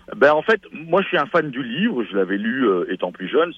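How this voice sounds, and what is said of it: Belgian French accent. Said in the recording (French): “tu peux entendre à mon accent que je suis québécois de Belgique, d'Europe du Nord”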